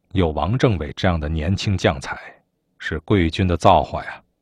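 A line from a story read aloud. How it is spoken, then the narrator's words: Sincere admiring praise. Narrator (Chinese): 张震汉由衷地敬佩王振，他发自内心地向贺龙赞叹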